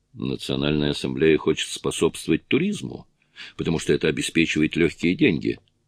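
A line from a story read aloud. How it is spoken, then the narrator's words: Plain. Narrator (Russian): сказал Джонатан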